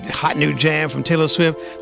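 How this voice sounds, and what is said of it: Radio DJ announcer voice. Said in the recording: “your official DJ voice”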